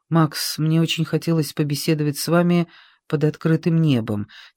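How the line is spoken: Quiet speech. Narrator (Russian): тихо говорил Гиацинтов

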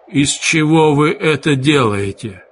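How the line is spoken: Strained, forced out. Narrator (Russian): кое-как выдавил из себя он

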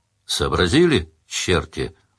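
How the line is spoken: Weary question. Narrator (Russian): устало спросил Сварог

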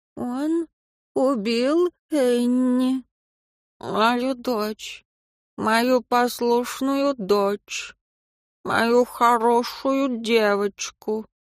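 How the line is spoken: Toothless mumble, barely intelligible. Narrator (Russian): Тень прошамкала так, что он едва понял

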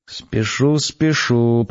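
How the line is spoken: Mutter. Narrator (Russian): пробормотал я

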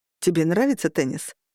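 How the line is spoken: Plain. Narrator (Russian): спросил он

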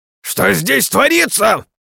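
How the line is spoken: Shouted. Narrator (Russian): прокричал судья

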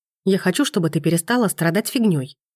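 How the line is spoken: Blurted out. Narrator (Russian): выпаливает Макс, все так же зло

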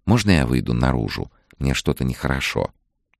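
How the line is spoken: Whispered request. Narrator (Russian): шепотом попросила

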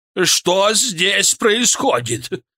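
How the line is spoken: Yelling. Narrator (Russian): заорал

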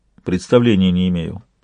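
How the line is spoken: Dry. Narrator (Russian): сухо ответил Сварог

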